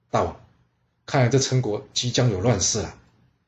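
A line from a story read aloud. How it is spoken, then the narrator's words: Quiet, hushed. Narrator (Chinese): 他小声对楚灵王说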